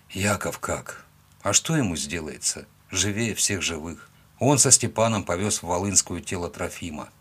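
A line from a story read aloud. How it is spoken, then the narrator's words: Sigh. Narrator (Russian): вздохнул я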